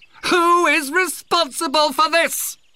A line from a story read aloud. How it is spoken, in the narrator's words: He yelled